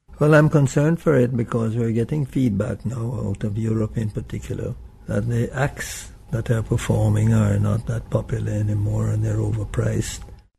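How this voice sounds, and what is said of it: Jamaican accent. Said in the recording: “whites aren't supposed to sound like that ... you can sound Jamaican without being black”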